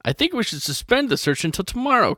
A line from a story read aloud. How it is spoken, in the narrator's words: Captain Field says